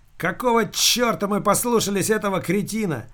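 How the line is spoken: Policeman yelling. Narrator (Russian): завопил полицейский

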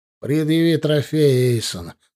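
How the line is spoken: Dry command. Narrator (Russian): сухо велел куратор

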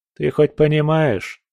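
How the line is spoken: Calm speech. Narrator (Russian): сказал я спокойно

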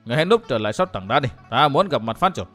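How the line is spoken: Cold. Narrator (Vietnamese): Chàng lạnh lùng thốt

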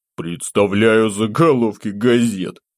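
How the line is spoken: Involuntary chuckle. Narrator (Russian): не сдержавшись, хохотнул я

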